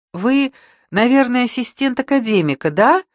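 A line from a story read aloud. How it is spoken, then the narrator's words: Cheerful guess. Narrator (Russian): радостно догадалась она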